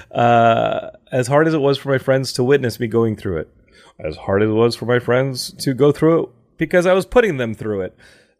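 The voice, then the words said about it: Cracking, emotional voice. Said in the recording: “my voice is cracking at this point. I'm getting emotional.”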